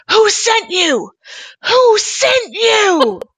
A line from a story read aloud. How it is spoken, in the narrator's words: screaming